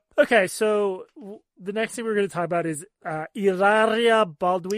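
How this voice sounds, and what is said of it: Put-on Spanish accent. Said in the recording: “You have such a good Spanish accent. Very impressive.”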